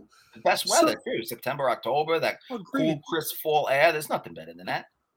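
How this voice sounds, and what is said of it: New York accent. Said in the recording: “you're the Boston accent ... It's a New York accent. ... you do sound like you're from Boston, even though it's New York. ... I think it's the way you say Boston. Everything else sounds New York.”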